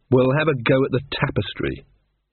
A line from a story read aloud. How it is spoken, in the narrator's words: said Magrat firmly